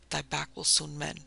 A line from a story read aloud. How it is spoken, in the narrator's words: whispered the poor mother, lapsing into the soft Quaker speech of her girlhood